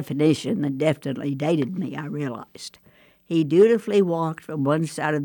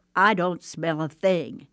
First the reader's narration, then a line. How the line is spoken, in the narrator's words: informed firmly